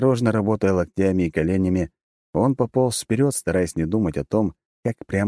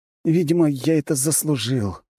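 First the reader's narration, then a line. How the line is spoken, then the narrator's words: Boy sighing. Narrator (Russian): вздохнул мальчишка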